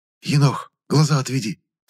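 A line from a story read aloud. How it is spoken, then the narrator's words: Hurried whisper. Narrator (Russian): торопливо шепнул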